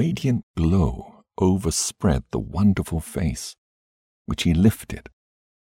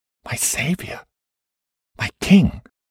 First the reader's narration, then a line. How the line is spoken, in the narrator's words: I whispered